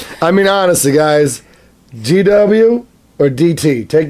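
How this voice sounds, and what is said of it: Usual voice. Nothing is said of it.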